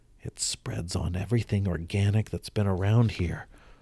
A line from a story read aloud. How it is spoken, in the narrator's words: muttered the medical examiner